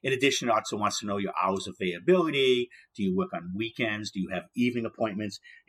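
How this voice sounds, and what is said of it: Massachusetts accent. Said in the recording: “as you probably can tell by my access, my accent that I'm speaking from ... Massachusetts”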